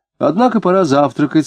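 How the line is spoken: Plain. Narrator (Russian): сказала она

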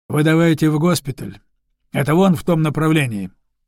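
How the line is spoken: Stern. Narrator (Russian): строго сказал Алексей

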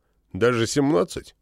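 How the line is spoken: Snort. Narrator (Russian): Фыркнул Вол

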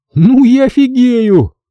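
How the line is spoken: Shouted with full mouth. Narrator (Russian): крикнул Хасан с набитым ртом

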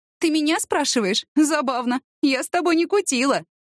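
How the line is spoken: Laughing. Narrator (Russian): засмеялась Ася

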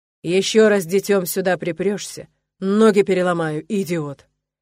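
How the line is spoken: Growl. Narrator (Russian): Прорычал

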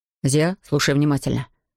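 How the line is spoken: Firm voice. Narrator (Russian): начал Равендер твердым голосом

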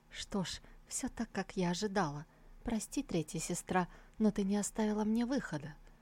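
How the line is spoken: Smirking whisper. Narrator (Russian): она, усмехнувшись, прошептала

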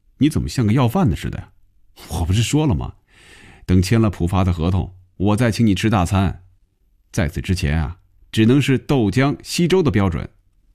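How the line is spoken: Laughing, teasing. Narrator (Chinese): 红军笑了

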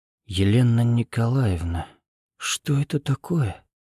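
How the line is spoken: Startled near-whisper question. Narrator (Russian): почти шепотом спросил дворецкий, увидев белого светлячка

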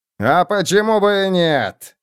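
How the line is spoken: Roared. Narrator (Russian): проревел он

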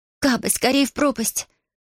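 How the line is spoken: Pleading request. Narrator (Russian): Алиана попросила

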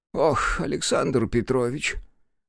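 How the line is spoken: Sighing. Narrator (Russian): вздохнул профессор

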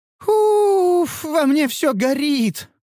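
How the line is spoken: Exclaimed. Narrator (Russian): воскликнула Нюру

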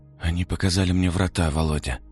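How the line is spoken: Whisper. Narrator (Russian): прошептал

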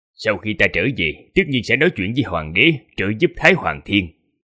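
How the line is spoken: Stern. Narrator (Vietnamese): Duyên Khang quốc sư nghiêm nghị nói

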